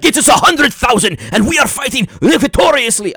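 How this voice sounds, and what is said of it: Put-on foreign accent. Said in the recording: “I don't even know why I use that accent”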